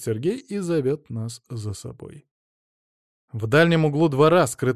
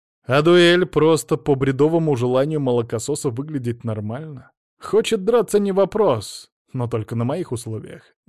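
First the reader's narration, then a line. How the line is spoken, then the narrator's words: Loud. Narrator (Russian): говорю я громко, чтобы расслышали все присутствующие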